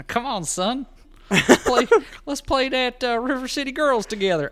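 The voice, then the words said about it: Put-on southern accent. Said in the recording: “I got this accent from being old ... You immediately go like southern ... more of a southern dialect”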